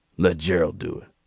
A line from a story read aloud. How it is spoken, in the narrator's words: muttered